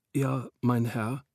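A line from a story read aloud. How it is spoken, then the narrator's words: Frightened whisper. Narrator (German): wisperte dieser verängstigt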